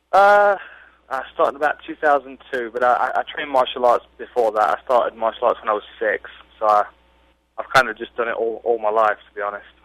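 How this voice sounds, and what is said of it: British English accent. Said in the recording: “you got this British accent... Nottingham, England.”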